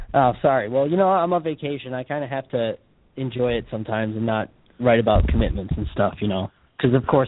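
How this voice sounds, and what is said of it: Hoarse voice. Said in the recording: “Apologize for my voice. I'm a little hoarse... excuse my hoarseness”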